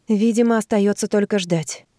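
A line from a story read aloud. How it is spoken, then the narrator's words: Heavy sigh. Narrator (Russian): тяжело вздохнула Анна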